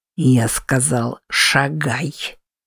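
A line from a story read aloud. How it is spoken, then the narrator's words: Through gritted teeth. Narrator (Russian): Процедил Уильям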